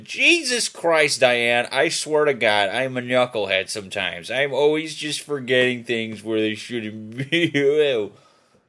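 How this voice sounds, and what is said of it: Exaggerated stereotypical white guy voice. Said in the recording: “That's my white guy impression”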